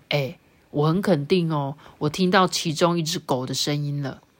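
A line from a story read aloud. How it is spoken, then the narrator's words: Low voice. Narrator (Chinese): 低声对着玛雅说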